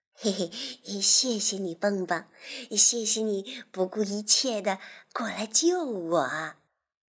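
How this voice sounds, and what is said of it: Soft quiet voice. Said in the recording (Chinese): “小声的对他说”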